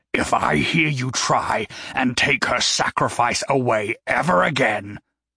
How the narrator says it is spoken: Gary growled

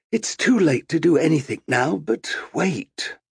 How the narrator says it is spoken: With a sigh of regret, he said

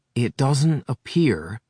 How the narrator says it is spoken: she said slowly

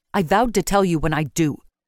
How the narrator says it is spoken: she snapped

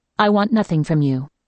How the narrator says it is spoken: Martha replied curtly

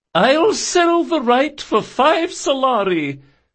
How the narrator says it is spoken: shouted the Lashani Viscountess

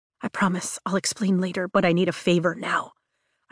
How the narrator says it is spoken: I whisper as my throat closes

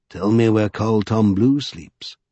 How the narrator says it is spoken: whispered Stokesy

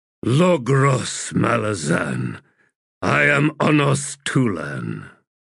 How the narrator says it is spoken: in a heavy, rasping voice, the warrior said

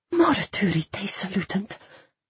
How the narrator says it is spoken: I whispered, tears pricking my eyes

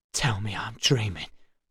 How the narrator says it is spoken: he whispered

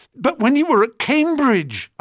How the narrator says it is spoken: I said desperately

